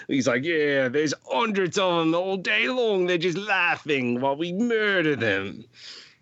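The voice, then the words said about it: Put-on accent quoting someone. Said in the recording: “you say it with that accent too? ... Oh yes, yes. I'm not just making up my accent. Like this is how they were really.”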